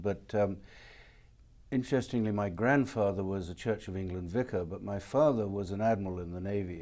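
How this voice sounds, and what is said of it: English accent. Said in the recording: “You can tell from my accent, I'm not from this country. I was born in England.”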